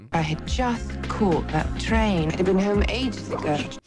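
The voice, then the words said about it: Gwyneth Paltrow's bad English accent. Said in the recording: “Gwyneth Paltrow, awful English accent ... the accent was just dreadful”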